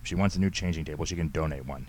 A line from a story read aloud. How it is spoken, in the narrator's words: Henry snapped